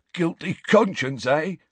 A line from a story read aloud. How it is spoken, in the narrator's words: he wheezed